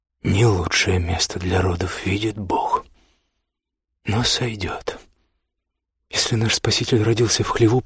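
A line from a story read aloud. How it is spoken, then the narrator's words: Whispered. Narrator (Russian): прошептала Лотта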